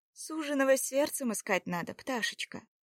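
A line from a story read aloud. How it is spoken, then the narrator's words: Tender, affectionate. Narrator (Russian): ласково ответила Любомила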